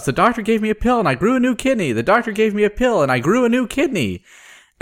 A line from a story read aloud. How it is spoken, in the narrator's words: She shouts